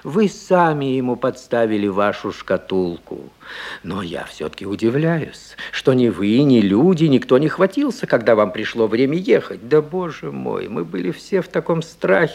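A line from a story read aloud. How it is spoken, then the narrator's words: Moaning. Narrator (Russian): стонала тетушка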